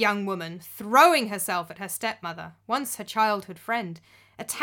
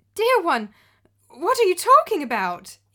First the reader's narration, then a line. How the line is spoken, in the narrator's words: exclaimed the wife, appearing to be genuinely shocked and confused